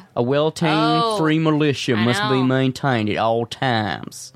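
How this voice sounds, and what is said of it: Put-on southern US accent. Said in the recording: “I don't know why I'm talking with a southern accent.”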